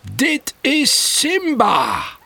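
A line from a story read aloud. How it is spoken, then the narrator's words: Saying loudly. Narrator (Dutch): zegt luid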